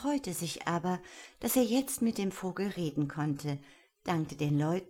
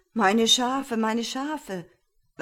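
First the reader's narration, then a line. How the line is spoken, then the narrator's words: Man calling repeatedly. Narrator (German): ein Mann, der rief immer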